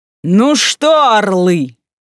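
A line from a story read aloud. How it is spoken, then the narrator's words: Booming bass. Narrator (Russian): прогремел раскатистым басом Матвейчук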